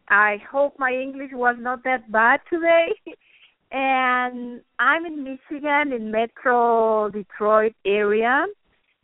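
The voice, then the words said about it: Peruvian Spanish-accented English. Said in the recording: “everybody noticed my accent ... I'm Peruvian. I'm from Lima, Peru, South America. So actually, my mother tongue is Spanish.”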